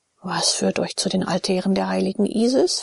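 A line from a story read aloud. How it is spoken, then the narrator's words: Quiet question. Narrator (German): fragte Abakes leise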